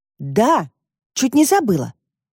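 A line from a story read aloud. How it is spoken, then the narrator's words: Sudden exclamation. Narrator (Russian): воскликнула вдруг Алевтина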